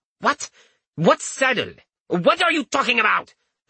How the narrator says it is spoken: cried out, exasperated

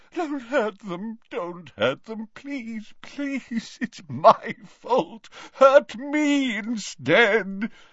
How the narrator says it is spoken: he moaned

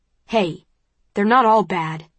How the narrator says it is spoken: he says sharply

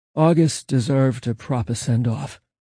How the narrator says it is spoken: Angel muttered

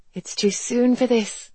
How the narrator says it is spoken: Garrett said anxiously

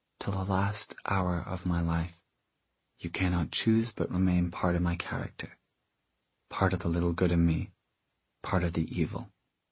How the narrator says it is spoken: Tessa said softly

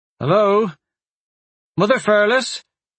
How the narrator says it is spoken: He called out

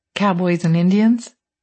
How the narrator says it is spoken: He laughed

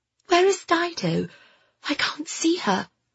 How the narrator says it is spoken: whispered

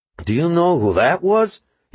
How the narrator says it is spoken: he exclaimed

